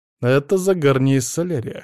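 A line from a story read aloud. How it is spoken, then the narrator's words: Snorting. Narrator (Russian): хмыкнул Алексей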